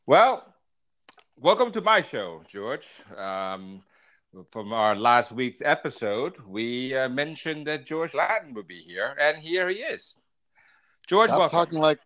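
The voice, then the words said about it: Radio announcer voice. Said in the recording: “talking like a radio announcer”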